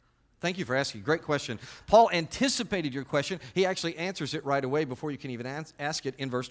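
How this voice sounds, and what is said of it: Usual voice. Nothing is said of it.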